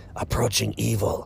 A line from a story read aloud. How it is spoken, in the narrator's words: One of them hissed